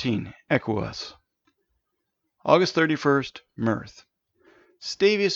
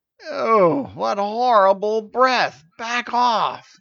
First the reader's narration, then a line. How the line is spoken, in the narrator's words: groaned